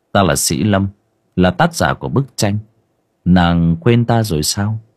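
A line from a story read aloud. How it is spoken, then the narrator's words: Soft laugh, young man. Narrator (Vietnamese): Chàng trai khẽ cười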